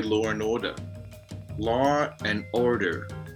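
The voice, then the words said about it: Weak attempt at American accent. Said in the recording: “Can you do an American accent? ... I try. ... It does not work. ... I just haven't got it.”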